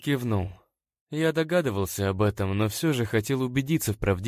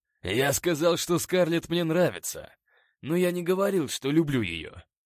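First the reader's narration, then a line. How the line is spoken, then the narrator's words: Growl. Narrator (Russian): прорычал Скотт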